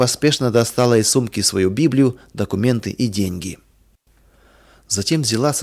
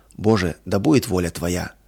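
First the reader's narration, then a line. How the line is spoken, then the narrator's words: Heartfelt whisper. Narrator (Russian): От всего сердца прошептала она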